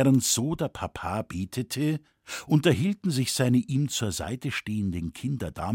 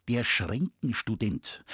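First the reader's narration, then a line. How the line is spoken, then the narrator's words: Plain. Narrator (German): antwortete dieser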